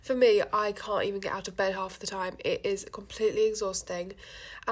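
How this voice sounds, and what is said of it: Congested voice from a cold. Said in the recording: “I really sound like I've got a cold. ... this isn't normally what I sound like”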